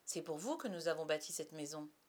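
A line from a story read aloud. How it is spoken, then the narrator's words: Brisk. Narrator (French): dit-il vivement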